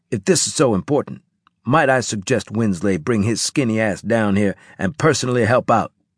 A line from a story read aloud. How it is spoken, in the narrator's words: Harris said angrily